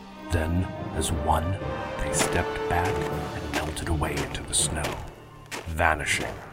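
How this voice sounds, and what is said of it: Usual voice. Nothing is said of it.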